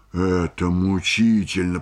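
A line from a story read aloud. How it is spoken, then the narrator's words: Artist through gritted teeth. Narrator (Russian): процедил сквозь зубы художник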